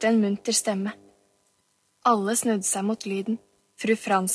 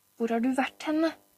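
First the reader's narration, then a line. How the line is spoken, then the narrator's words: Muffled mumble. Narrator (Norwegian): mumlet hun inn mot genseren hans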